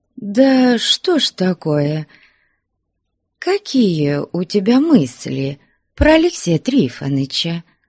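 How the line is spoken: Fawning question. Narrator (Russian): Заискивающим голосом спросила Ксения Захаровна

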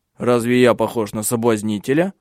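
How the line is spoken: Angry question. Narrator (Russian): сердито спросил Тенгель

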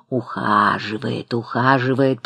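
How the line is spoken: Drawl. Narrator (Russian): протянула она

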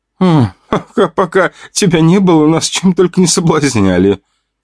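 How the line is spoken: Giggling. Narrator (Russian): хихикала Настя

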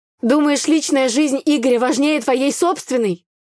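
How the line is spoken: Shouted. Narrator (Russian): выкрикнула я

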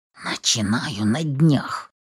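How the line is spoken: Growled through teeth. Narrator (Russian): Сквозь зубы рычу

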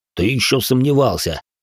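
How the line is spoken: Amused snort. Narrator (Russian): хмыкнул Куват

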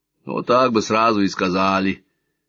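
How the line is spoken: Grumbling. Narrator (Russian): проворчал детинушка

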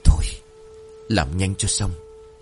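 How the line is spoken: Heavy-breathing soft murmur. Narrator (Vietnamese): Thành thở mạnh, khẽ nói qua kẽ rằng

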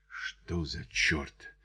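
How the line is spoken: Quiet. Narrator (Russian): тихо произнес Чарли

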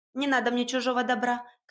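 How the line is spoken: Shouted over shoulder. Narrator (Russian): крикнула через плечо

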